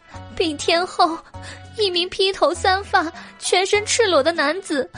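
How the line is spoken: Tearful plea. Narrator (Chinese): 宫女哭诉道

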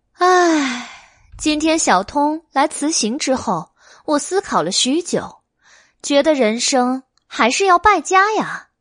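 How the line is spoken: Sighing. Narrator (Chinese): 白姬叹了一口气

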